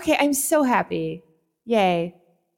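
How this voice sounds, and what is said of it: Snarky, sarcastic cheerful delivery. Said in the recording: “Snark in there? Is there snark? ... I can still hear the snark in your voice. You do not hide that very well.”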